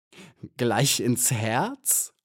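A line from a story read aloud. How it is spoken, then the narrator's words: Robber laughing. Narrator (German): lachte der Räuber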